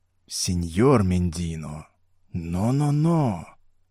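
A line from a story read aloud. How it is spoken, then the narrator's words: Quiet whisper. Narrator (Russian): тихо прошептал Роберто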